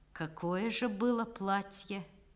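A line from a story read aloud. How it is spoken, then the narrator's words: Lazy drawl with chuckle. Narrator (Russian): он усмехнулся в темноте, и, лениво растягивая слова, спросил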